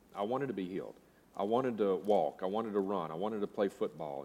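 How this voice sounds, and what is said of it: Slight regional American accent. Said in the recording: “You might notice I have a little bit of an accent. I try to mitigate it when I'm preaching, but it still seeps through.”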